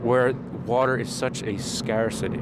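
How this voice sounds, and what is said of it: Put-on Irish accent. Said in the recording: “I said that with an Irish accent.”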